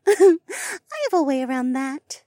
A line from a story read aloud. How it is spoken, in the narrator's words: Mariah giggled